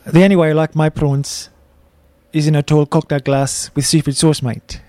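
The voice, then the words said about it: Attempted Afrikaans accent. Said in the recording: “I'm ready to attempt my Afrikaans accent.”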